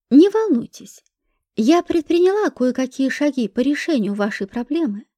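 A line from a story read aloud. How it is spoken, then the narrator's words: Calm. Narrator (Russian): сказала я спокойно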